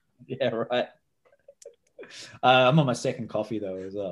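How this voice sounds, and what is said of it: Talks very fast. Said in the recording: “You're talking super fast.”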